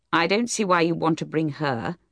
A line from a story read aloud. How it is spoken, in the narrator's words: Troy said coldly